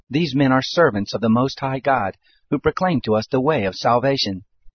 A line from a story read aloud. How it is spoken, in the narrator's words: The same cried out